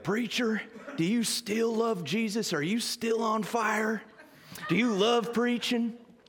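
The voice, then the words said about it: Deep Southern accent. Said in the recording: “he's got a deep southern accent”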